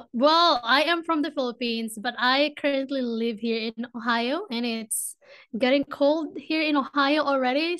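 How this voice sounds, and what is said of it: Noticeable foreign accent. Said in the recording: “I love your accent.”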